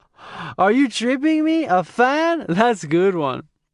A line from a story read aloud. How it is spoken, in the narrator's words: Tommy laughed and said